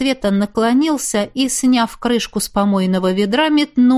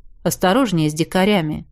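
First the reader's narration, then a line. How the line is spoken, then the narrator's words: Calm advice. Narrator (Russian): спокойно посоветовал я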